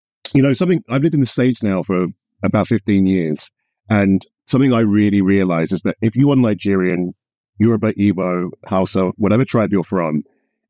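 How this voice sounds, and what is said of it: British accent. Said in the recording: “The accent does the British for me”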